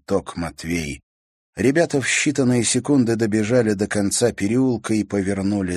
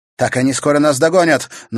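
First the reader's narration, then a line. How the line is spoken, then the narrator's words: Shout while moving. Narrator (Russian): на ходу выкрикнула Катерина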